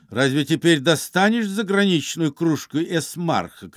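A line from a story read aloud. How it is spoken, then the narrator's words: Shouting. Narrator (Russian): кричал Галкин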